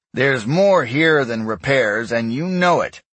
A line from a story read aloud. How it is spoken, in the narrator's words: Eric told the boy sternly